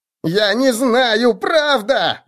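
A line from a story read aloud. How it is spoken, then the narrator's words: Shrill squeal. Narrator (Russian): взвизгнул большой втык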